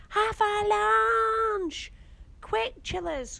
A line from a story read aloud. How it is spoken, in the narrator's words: cried Grandad